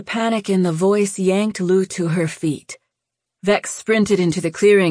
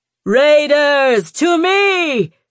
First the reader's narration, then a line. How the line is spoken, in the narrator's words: she bellowed